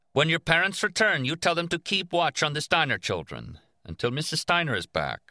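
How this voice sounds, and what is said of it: Policeman character voice with accent. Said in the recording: “the policeman asked with an accent”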